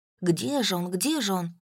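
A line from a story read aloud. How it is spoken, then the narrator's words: Mutter. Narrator (Russian): Он бормотал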